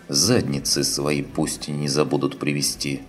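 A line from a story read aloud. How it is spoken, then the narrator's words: Gruff mutter. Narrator (Russian): буркнул Чапай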